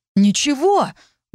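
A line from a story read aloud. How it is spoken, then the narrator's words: Sincerely indignant exclamation. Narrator (Russian): воскликнул Орит с таким искренним возмущением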